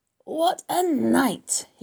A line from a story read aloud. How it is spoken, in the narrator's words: he repeated hoarsely